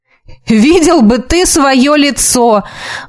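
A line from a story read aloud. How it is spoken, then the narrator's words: Exclaiming. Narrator (Russian): воскликнул он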